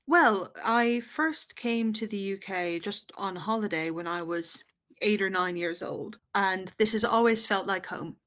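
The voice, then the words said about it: American New York accent. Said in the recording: “you haven't got an English accent... you're from New York”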